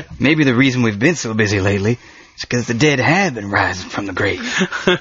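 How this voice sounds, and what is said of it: Weak impression of another person's voice. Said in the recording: “that was a terrible Ernie Hudson impersonation ... Not enough bass in your voice.”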